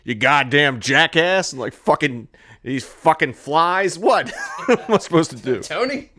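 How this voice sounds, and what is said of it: Imitates another person's voice. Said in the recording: “I can't even do a fucking impersonation of him”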